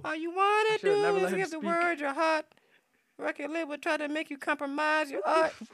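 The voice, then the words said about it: Imitates another person's voice. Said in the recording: “my best impression”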